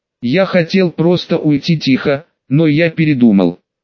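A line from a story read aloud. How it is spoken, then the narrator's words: Plain. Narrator (Russian): сказал Лид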